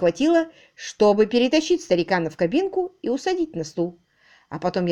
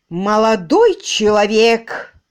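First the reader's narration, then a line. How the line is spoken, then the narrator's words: Terrible-voiced exclamation. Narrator (Russian): страшным голосом возгласил мистер Мерблс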